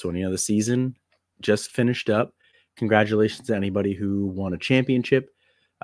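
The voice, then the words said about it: Voice sounds sick, under the weather. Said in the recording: “I apologize for my voice, a little under the weather.”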